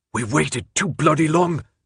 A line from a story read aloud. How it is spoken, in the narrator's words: Newt snapped in a low, harsh whisper